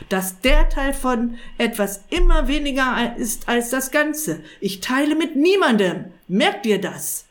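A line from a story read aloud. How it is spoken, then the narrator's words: Sharp. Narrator (German): sagte scharf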